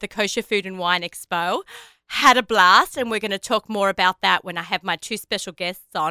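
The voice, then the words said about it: Slightly hoarse voice. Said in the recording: “As you can hear, I'm a little bit hoarse still because it's been so busy”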